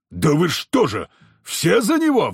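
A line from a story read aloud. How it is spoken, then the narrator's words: Roaring. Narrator (Russian): взревел Никодим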